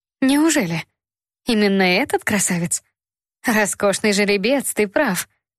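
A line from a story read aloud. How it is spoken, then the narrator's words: Soft, tender. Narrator (Russian): Мягким ласковым тоном ответила странница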